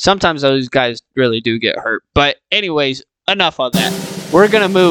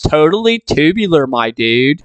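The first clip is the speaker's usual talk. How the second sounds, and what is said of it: Surfer dude voice. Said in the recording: “surfer dudes”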